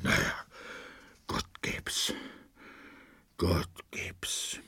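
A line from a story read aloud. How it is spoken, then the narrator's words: Murmured. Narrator (German): murmelte er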